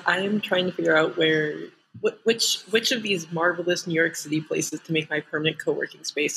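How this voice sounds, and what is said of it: Speaking very quietly. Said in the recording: “I'm talking very quietly”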